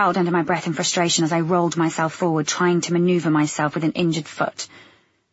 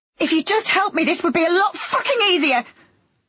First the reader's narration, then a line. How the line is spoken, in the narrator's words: I blurted out